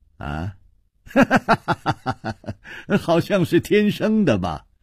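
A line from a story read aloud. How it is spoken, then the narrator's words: Light smile. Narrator (Chinese): 楚留香笑了笑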